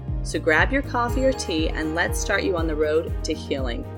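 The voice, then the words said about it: Calm, relaxed, peaceful voice. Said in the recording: “my voice is a little more chill and relaxed, it is very early in the morning ... my voice definitely sounds very peaceful”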